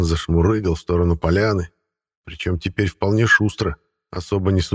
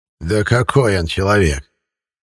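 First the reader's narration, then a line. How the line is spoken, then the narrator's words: Old man's snort. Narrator (Russian): хмыкнул дед Силантий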